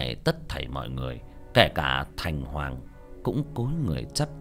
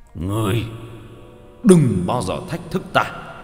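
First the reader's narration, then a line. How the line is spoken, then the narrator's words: Snarling roar. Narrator (Vietnamese): Hắc Hổ nhe răng, gầm lên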